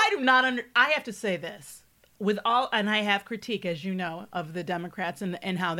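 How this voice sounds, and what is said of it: Usual voice. Nothing is said of it.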